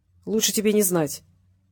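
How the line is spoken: Stern. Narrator (Russian): строго произнес Гукин

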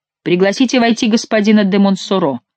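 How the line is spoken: Stern shout. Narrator (Russian): крикнул Франсуа строгим тоном

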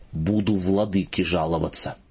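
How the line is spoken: Spiteful. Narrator (Russian): сказал злобно

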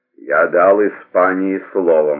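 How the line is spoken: Gloomy reply. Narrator (Russian): мрачно ответил

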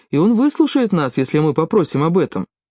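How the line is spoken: Calm. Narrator (Russian): спокойно сказал

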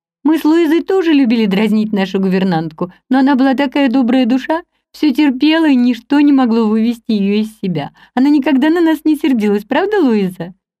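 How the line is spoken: Gentle childlike voice. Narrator (Russian): Эми Эштон сказала своим нежным детским голоском

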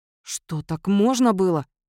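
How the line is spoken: Hissing while choking on food. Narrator (Russian): прошипел Кловис, давясь очередной закуской

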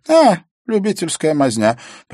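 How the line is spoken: Contemptuous snort. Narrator (Russian): презрительно фыркнула Эвана

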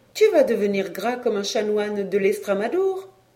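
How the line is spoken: Laughing. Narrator (French): La Mère Ballet elle me disait en riant

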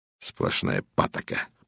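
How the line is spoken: Grumbling. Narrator (Russian): проворчал он

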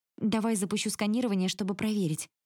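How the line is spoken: Suggesting. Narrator (Russian): предлагаю я

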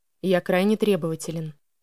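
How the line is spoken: Even, level voice. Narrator (Russian): ровным голосом произнес он

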